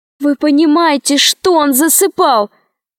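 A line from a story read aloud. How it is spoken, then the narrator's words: Shouted. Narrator (Russian): закричала Алиса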